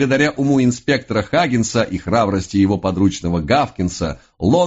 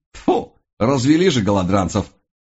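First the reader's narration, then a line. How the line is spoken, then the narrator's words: Snort. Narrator (Russian): фыркнул он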